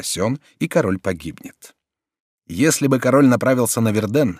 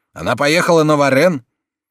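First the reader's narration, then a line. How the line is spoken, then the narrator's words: Loud joyful cry. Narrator (Russian): Друэ громко вскрикивает от радости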